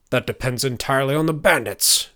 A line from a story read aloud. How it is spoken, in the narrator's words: grumbled the fatter older man